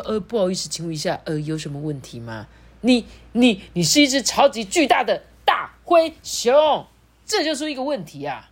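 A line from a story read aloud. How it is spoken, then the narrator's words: Roaring. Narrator (Chinese): 警察局长在那边对他大吼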